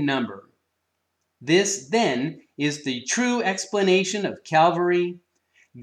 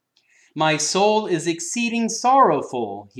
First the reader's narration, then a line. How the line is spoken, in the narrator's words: he cried